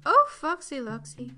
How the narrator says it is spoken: cried Chicken Licken

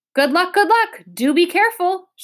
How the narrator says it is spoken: shouted the king

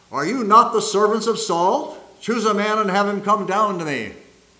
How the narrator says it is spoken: Goliath shouts across the valley

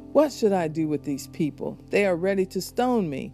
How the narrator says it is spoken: Moses cried out to the Lord

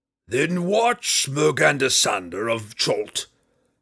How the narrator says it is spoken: Hephaestus roared

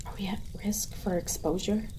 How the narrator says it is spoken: I hear my mother whisper

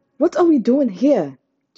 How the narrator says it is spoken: Chi-Chi snapped

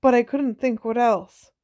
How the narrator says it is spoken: he said anxiously

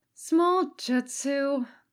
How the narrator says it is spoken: Katsuko said with a sigh

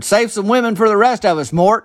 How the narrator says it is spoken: Rusty Tidwell hollered

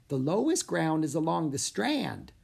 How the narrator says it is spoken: said the woman in a squeaky voice

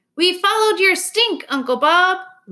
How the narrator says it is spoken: Ruby exclaims

